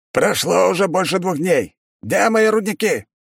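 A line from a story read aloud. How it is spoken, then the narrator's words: Shouting over phone. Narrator (Russian): прокричал голос из трубки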